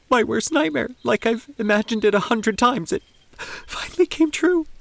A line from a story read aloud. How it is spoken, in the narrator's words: Teresa confessed, her tone bordering on hysteria